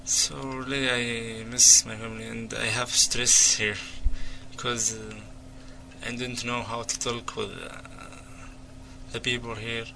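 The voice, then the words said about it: Non-native English accent. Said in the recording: “Nobody can understand me if I talk because of the accent”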